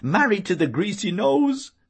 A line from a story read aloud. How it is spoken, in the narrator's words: she yelled